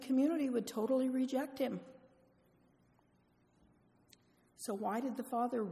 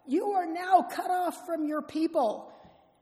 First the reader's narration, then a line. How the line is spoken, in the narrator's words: they would yell